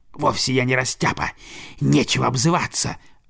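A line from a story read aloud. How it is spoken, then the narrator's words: Snapping retort. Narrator (Russian): огрызнулась куница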